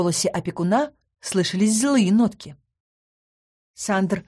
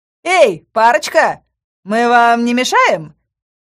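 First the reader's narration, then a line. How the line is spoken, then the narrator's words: Redhead shouting. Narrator (Russian): крикнул рыжий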